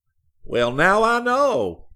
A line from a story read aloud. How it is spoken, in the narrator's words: he exclaimed triumphantly